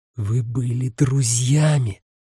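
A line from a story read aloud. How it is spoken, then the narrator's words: Hissed. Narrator (Russian): прошипела она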